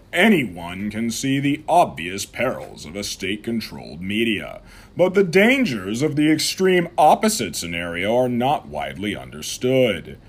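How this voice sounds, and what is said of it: Formal newscaster voice. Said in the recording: “I'm going to switch over to my newscaster voice now.”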